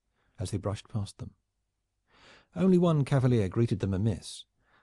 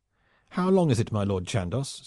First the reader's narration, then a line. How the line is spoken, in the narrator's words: said he hotly